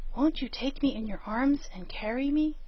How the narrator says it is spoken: said in a whisper, for he knew she did not like a loud voice

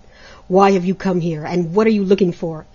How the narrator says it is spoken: asked Great January crossly

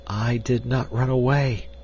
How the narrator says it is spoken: she whispered

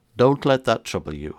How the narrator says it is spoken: I replied

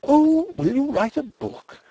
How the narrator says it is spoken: she cried, clapping her hands

